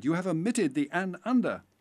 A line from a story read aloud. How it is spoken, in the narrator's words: cried